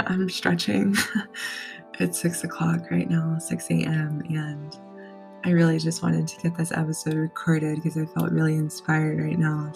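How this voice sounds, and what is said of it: Slightly raspy, just-woken voice. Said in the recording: “excuse my voice. It's a little raspy still, and I'm still waking up”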